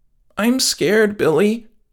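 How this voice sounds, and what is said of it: Quivering, frightened voice. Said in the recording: “Her voice was quivering.”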